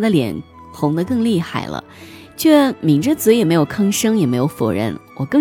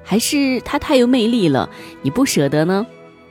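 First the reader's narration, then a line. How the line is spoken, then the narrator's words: Joking, questioning. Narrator (Chinese): 我还是没忍住，又借着玩笑提出疑惑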